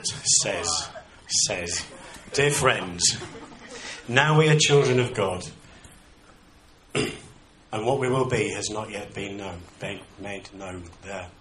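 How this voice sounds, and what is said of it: Yorkshire accent. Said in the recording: “I'm from the north, by the way... gonna get my Yorkshire twang coming out.”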